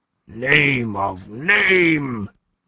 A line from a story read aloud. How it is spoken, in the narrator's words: he groaned